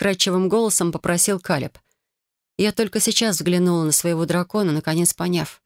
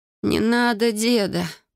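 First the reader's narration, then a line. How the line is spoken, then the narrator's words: Moaning. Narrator (Russian): простонала я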